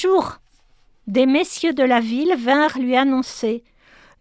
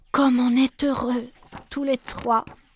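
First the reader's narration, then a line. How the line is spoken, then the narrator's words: Whispering to herself. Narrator (French): elle se disait tout bas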